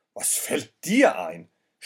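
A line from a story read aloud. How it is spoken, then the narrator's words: Man shouting angrily. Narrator (German): schrie der Mann es an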